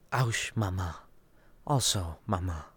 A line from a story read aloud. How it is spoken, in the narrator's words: Liesl answered quietly